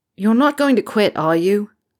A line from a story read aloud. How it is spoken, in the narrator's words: Harry said loudly